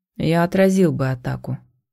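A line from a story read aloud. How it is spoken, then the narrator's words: Tired. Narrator (Russian): устало сказал Итан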